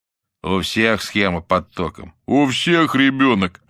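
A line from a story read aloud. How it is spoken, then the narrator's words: Answer, then laughter. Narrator (Russian): ответили ему и рассмеялись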